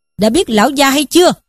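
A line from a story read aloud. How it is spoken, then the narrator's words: Shouted question. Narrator (Vietnamese): thét hỏi rằng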